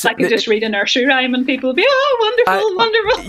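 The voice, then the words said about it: Irish accent. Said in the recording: “your Irish accent. It sounds so great.”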